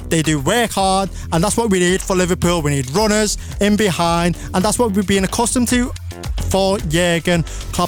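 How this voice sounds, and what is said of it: Scouse accent. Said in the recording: “my Scouse accent ... Also the accent. The Scouse accent is top tier.”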